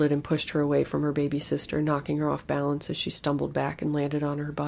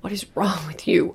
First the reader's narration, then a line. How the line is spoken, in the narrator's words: I begged, feeling as wild-eyed and animalistic as my daughter looked